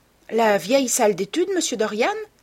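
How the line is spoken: Exclaiming. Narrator (French): s'exclama-t-elle

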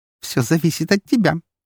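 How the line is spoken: Giggled. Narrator (Russian): хихикнула Фокси

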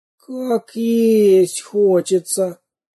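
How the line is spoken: Moaning. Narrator (Russian): простонал он

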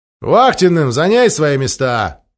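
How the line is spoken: Captain's loud announcement. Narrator (Russian): громко объявил капитан

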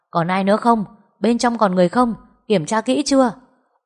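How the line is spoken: Firefighters shouting to each other. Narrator (Vietnamese): Mấy người lính cứu hỏa hò hét nhau

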